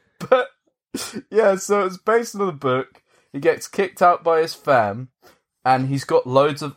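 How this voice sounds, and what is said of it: Usual voice. Nothing is said of it.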